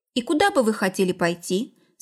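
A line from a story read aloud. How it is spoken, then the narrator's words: Plain question. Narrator (Russian): спросил сероглазый Григорий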